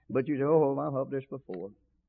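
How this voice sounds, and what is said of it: Sarcastic mocking tone. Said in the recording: “I'm being sarcastic.”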